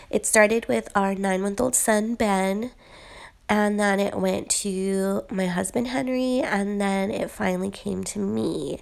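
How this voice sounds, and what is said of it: Congested, sick-sounding voice. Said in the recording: “as you can probably hear in my voice, a nasty cold”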